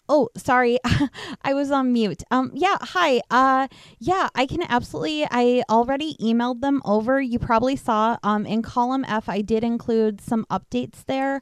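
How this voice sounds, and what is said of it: Polished corporate meeting voice. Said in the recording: “What is your what is your office Zoom meeting voice sound like ... try to do my Zoom voice”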